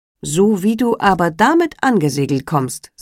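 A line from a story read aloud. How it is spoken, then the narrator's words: Plain. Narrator (German): sagte er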